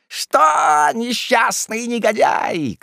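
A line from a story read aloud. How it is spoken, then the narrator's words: Old women shouting. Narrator (Russian): кричали старухи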